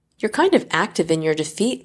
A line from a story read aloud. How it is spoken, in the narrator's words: Laomachi chuckles again